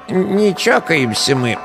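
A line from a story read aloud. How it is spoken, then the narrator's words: Rattling voice, warning. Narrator (Russian): знакомым дребезжащим голосом предупредил сосед слева по виду дьячок сельской церкви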